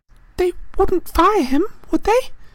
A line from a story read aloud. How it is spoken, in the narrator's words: said anxiously